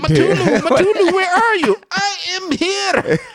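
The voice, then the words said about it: Put-on foreign accent. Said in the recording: “Did he do it in that accent?”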